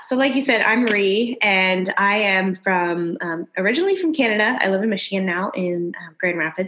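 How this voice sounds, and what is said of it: Hybrid Michigan Canadian accent. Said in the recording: “a hybrid Michigan Canadian um, accent”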